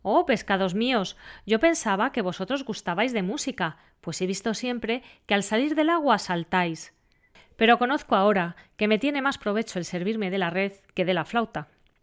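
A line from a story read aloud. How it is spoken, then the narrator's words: Fisherman exclaiming. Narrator (Spanish): exclamó el pescador diciendo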